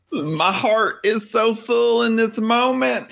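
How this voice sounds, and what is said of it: Long emotional country drawl. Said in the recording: “Your drawl is getting really long. ... When I get emotional, I get country.”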